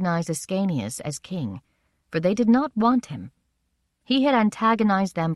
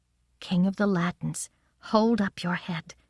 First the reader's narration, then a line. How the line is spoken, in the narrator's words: I had to say to him softly